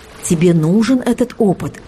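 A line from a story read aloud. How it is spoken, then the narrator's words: Calm mentor. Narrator (Russian): спокойно ответила мистическая наставница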